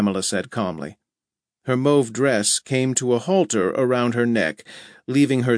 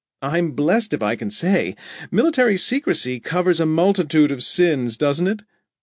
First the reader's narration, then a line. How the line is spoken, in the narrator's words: Rhoda laughed